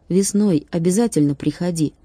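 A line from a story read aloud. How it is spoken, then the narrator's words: Plain. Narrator (Russian): сказал Чип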